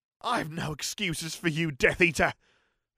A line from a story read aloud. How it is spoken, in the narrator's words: shouted Peter defiantly